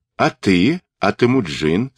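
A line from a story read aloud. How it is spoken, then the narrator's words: Plain. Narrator (Russian): спросил Джалме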